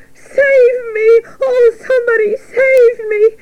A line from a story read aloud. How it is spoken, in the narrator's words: screamed Wilbur